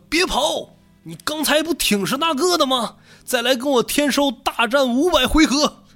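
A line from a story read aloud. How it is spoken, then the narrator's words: Shouting while chasing. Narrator (Chinese): 狂人一边追一边喊说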